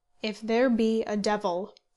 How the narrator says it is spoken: said he

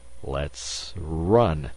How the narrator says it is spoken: he faltered

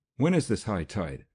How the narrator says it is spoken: asked Oberjean breathlessly

